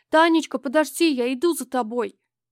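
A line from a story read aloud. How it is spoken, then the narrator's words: Frightened boy shouting. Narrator (Russian): Сереже стало почему-то так страшно, что он даже зажмурился и закричал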